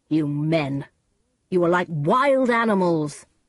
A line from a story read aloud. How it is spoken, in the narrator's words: said angrily